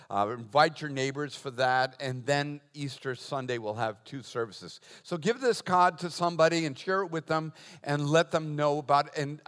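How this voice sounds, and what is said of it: Boston accent. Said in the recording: “laughing about my accent... he's from Boston”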